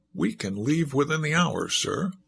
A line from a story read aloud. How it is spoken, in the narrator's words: chuckled